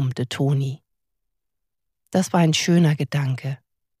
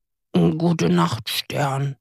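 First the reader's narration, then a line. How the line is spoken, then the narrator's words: Grumbled. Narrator (German): brummte Toni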